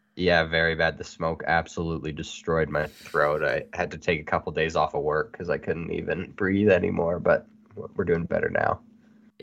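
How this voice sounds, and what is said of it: Slightly off, recovering sick voice. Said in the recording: “I got sick ... If my voice sounds a little off, that's why”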